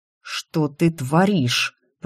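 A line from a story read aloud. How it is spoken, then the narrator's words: Hissed in face. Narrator (Russian): прошипел он мне в лицо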